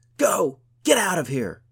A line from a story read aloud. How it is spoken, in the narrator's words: shouted, then stood panting